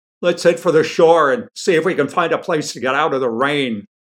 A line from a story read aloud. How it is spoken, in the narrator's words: Rascal shouted over the din of splashing drops